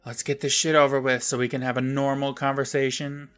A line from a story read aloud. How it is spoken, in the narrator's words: Libby sighs and says